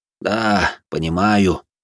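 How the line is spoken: Sighing. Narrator (Russian): вздохнул священник

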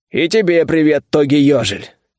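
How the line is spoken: Loud growl. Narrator (Russian): громко рыкнул я в ответ

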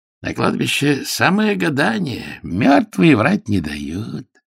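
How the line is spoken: Hoarse voice. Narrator (Russian): сказала она хриплым голосом

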